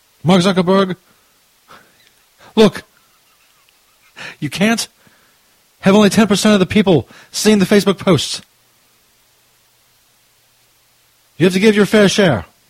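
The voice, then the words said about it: Bernie Sanders impression. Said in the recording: “My Bernie Sanders impression isn't that great, but it's not that bad either ... I think that fucking for Bernie Sanders impression was pretty much dead on.”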